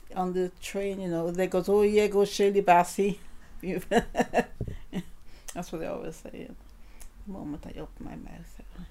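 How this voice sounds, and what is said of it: Welsh accent. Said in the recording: “I open my mouth, oh, you're from Wales ... with your accent as a Welsh and a speaking person”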